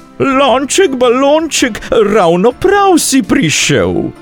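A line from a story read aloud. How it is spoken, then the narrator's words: Woman calling out. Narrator (Slovenian): Tedaj je zagledala okrogli lonček in zaklicala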